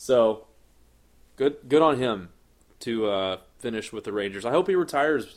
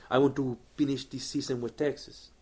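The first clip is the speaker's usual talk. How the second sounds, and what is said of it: Adrian Beltre impression. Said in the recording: “my Adrian Beltre impression”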